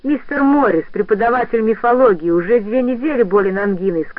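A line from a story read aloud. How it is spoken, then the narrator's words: Plain. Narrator (Russian): сказал он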